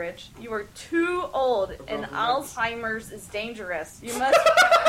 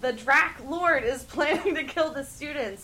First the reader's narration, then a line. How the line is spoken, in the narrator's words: yelled Cornelia Fudge